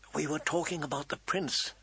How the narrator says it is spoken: Sansa said, her voice soft as a kiss

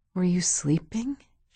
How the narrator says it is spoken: She whispered, like he still might be

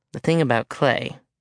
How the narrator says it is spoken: she said,

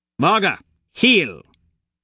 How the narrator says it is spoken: She snaps

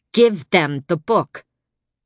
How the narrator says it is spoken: My sister snapped

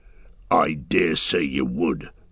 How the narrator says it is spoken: snarled Ugdruk

